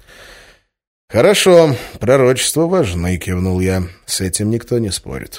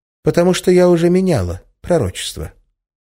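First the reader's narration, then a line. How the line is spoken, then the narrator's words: Completely calm reply. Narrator (Russian): совершенно спокойно ответила Арина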